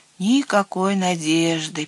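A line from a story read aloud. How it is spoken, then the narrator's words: Sad. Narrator (Russian): печально сказал он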